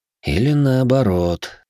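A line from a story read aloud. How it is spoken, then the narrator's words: Sighing. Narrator (Russian): вздохнул я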